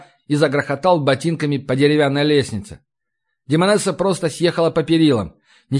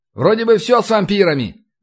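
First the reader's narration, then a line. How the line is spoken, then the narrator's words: Loud shout. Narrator (Russian): крикнул я на весь двор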